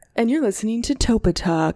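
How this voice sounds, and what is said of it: Low announcer radio voice. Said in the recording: “radio voice ... you're going very like low”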